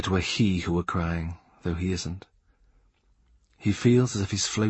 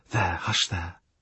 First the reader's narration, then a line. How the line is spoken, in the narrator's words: cries whispering